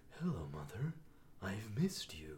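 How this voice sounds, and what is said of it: Spooky, creepy character voice. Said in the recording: “It was a spooky voice. ... had a slight reverb on it. ... It creeped me out. ... that's a creepy voice”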